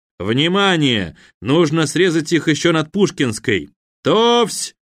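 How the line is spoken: Shout. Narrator (Russian): крикнул

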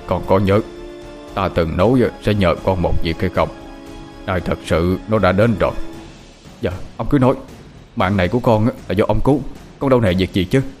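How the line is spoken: Very grave tone. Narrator (Vietnamese): Thầy Long nói với giọng rất nghiêm trọng

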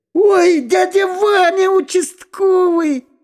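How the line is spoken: Joyful shout. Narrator (Russian): радостно закричал Владик

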